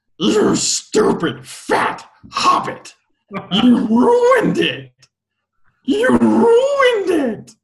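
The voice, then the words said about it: Gollum character voice. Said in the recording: “I can do a, uh, a Gollum voice though ... That was really good”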